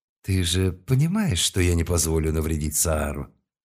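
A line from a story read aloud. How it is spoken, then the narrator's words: Cool, unamused tone. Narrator (Russian): Слова были произнесены уже без былого веселья и куда более прохладным тоном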